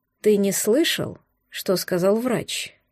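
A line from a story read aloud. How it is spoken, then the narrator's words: Quiet but confident. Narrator (Russian): Тихо, но уверенно заявила дочка олигарха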